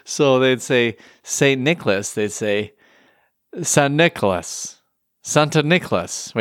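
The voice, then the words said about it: Put-on Dutch accent. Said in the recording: “You have the best Dutch accent I've ever heard in my entire life.”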